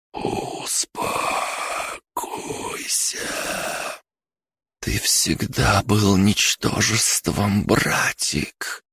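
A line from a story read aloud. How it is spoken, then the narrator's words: Whisper. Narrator (Russian): прошептала Бригитта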